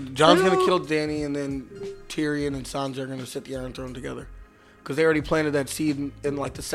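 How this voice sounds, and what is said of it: Usual voice. Nothing is said of it.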